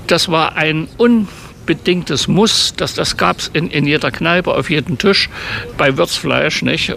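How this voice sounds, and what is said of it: Thuringian German dialect. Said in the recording (German): “Thüringer Dialekt. ... Ja, unverkennbar, oder?”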